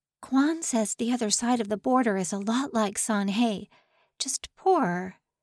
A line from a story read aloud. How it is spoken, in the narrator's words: So Young breathed